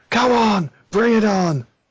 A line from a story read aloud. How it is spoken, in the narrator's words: yell